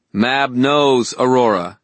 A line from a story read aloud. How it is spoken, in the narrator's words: I said